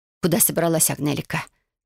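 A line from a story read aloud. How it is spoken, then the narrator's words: Quiet ominous whisper. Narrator (Russian): тихим зловещим шепотом спросила она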